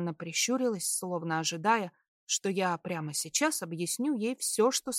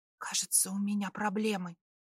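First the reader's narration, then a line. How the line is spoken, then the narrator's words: Whisper. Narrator (Russian): прошептала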